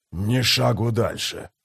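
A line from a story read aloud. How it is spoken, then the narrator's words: Hoarse voice. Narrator (Russian): произнес хриплый голос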